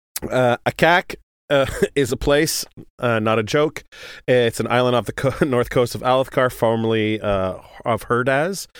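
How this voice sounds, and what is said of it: Strained, worn-out sick voice. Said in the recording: “I'm having a hard time here with my coughing. I'm sick this weekend ... my voice is a little shot.”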